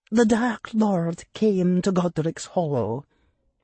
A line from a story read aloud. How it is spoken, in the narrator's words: Professor McGonagall said in a whisper